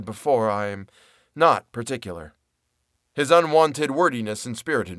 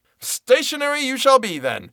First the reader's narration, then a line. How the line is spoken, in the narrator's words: I cried, now losing all patience, fairly flying into a passion